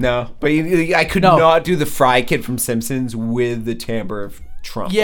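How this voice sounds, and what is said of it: Usual voice. Nothing is said of it.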